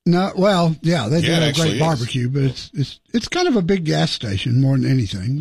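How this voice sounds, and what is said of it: Texas accent. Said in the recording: “I love the accent. ... Oh, I'm from Dallas. ... Texas, man.”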